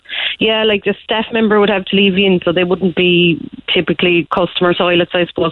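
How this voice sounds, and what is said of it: East Cork Irish accent. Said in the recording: “that sounds like an East Cork accent”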